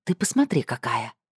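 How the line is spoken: Whisper in ear. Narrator (Russian): шепнула на ухо

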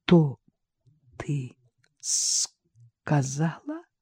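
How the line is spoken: Stammering. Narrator (Russian): заикаясь, проговорил он

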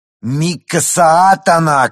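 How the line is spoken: Shouted, young man. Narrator (Russian): крикнул один из парней

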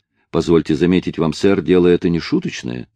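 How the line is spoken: Plain. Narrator (Russian): сказал он

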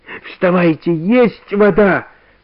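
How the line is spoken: Shouting. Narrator (Russian): кричал Иван Гермогенович

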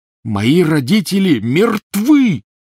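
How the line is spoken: Roar. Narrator (Russian): взревел Гарри

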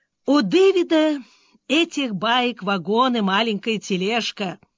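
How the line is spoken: After laughing. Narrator (Russian): отсмеявшись, сказал Мерфи

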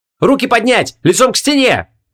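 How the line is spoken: Shouted command. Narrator (Russian): крикнула Ванесса

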